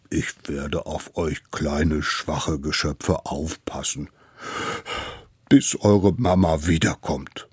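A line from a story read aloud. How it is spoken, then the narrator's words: Sobbing. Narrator (German): schluchzte es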